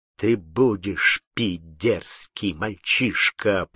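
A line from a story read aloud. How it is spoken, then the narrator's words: Furious trembling hiss. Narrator (Russian): прошипел, как змей, дрожащим от бешенства голосом Кручина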